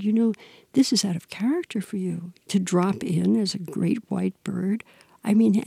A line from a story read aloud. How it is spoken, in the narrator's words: he began to laugh, and he said,